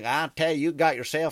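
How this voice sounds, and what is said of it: Put-on Southern US accent. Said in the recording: “if I broke my leg down south ... the accent doesn't work for you”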